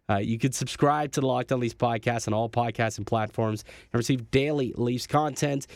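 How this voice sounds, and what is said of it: Hoarse, nearly lost voice. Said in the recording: “My voice, almost gone. ... my voice has really been dwindling as the show went on here.”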